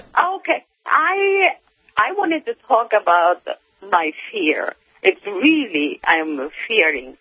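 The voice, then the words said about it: Japanese accent. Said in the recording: “what's that accent I'm detecting? ... I'm coming from Japan.”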